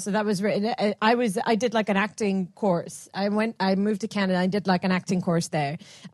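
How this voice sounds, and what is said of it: Speaker with an acquired Canadian-sounding accent. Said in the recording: “from when I lived in Canada... where I picked up this accent”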